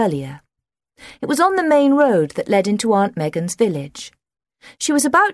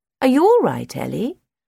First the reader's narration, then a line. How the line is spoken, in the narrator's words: Aunt Megan asked